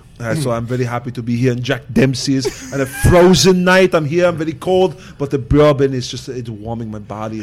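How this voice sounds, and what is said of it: Imitates another person's voice. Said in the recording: “Ed Schwarzenegger impression ... I heard you do a good impression of Arnold”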